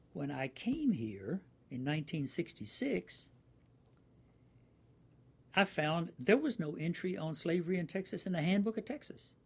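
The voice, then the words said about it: Virginia accent. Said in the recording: “you can probably tell by my accent still hangs on, I'm a native of Virginia. I'm not a native Texan.”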